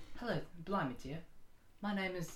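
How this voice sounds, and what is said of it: Put-on English accent. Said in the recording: “Can you do an English accent”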